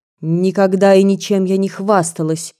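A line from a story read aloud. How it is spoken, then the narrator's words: Cold and sharp. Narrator (Russian): холодно и резко говорила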